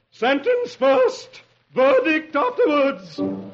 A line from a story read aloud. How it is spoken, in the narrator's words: The queen thunders